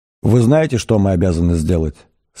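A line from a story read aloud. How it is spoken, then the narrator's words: Cold, businesslike question. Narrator (Russian): спросила Триллиан холодным, деловитым тоном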